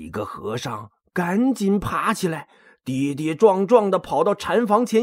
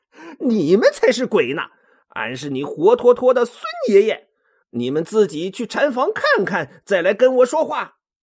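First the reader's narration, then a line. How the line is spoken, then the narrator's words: Bursting laughter. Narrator (Chinese): 孙悟空终于憋不住了，大笑着说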